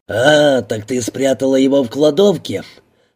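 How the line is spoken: Hoarse growl, very close. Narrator (Russian): Совсем близко прорычал хриплый голос

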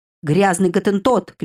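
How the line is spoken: Shouting. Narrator (Russian): кричал Белый

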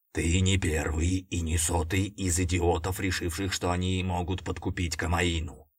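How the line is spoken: Huge dog growling close. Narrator (Russian): прорычала мне прямо в лицо огромная собачья пасть

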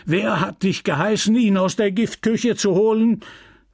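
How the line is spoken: Pharmacist bellowing. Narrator (German): der Apotheker brüllte

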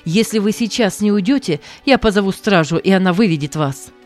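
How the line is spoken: Shouting again, young man. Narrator (Russian): снова закричал молодой человек

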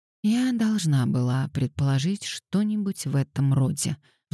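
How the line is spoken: Sighing. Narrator (Russian): вздохнула она

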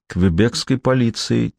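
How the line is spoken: Quiet. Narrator (Russian): тихо произнесла она

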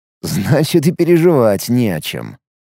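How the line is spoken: Snorting. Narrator (Russian): хмыкнул Алекс

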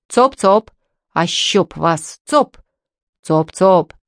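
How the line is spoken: Peasants' bass chorus. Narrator (Russian): Басом вторили ей крестьяне

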